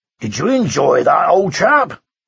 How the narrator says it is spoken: he grunted twice

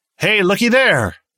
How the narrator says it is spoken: Someone behind them called out

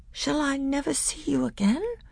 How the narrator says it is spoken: said Caspian in a quavering voice

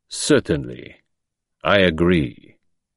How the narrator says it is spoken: Calmly, and almost scornfully, he replied

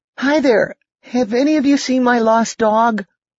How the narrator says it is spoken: Building up his courage, shouted out in a trembling voice

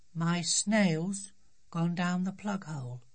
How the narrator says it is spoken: she said in a very quiet voice

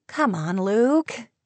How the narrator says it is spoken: she said, still chuckling

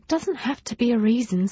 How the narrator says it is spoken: sighed Nesta

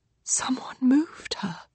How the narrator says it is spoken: Nancy whispers

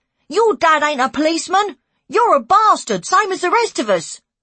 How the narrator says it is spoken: A kid on our estate shouted

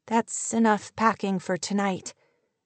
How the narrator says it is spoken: she murmured, her voice breathless even while she struggled to sound cheerful and bright

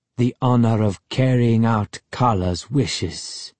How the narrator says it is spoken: Ahmed said solemnly

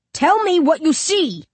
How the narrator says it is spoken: Justin yells

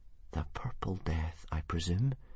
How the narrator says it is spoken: whispered Hiccup shakily

